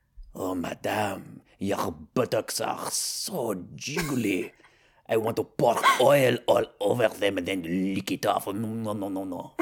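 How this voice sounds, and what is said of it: English with put-on French accent. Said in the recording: “Maybe with a French accent ... English with a French accent.”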